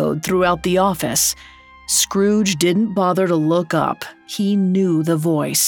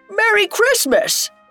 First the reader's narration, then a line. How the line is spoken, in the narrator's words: a shout of